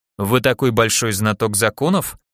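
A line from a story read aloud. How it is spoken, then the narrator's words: Dry question. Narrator (Russian): сухо поинтересовался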